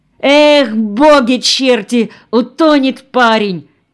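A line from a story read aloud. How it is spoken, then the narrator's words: Shout. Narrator (Russian): крикнул кто-то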